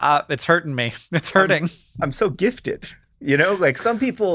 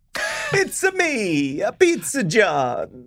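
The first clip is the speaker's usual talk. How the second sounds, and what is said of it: Mario impression. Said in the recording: “do a Mario voice”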